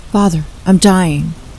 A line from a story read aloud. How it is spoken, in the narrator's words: Jan exclaiming a simple but sharp